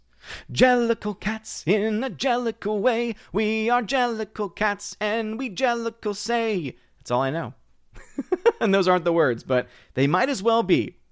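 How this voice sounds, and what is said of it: Impression of the musical Cats. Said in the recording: “Here's my impression of the musical Cats. This is all I took away from the musical Cats.”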